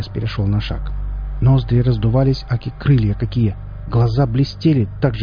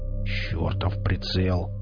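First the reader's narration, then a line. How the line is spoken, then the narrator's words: Grumbled. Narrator (Russian): проворчал он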